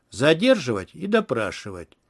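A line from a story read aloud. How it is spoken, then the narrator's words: Cold declaration. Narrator (Russian): холодно заявил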